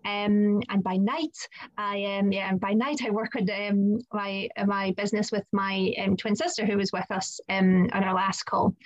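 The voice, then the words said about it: Scottish accent. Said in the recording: “I live in Scotland, so you might have picked up from my accent.”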